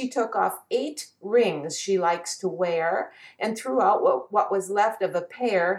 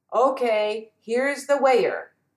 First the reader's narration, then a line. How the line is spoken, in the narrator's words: he said